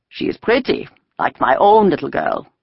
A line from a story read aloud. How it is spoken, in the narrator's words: the tall one said in a more pleasant voice